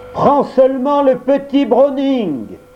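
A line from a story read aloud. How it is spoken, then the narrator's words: Shout. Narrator (French): cria Perken en français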